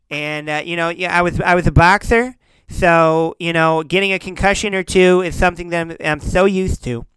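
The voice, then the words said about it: Lisping imitation of another person's voice. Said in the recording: “the worst impression you do ... I just did the lisp”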